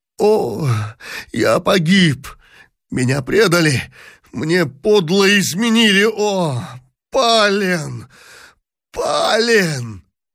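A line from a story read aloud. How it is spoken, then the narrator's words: Anguished moan. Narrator (Russian): простонал в тоске император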